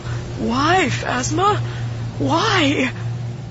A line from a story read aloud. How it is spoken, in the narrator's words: Keldo was going into shock, and he could only mumble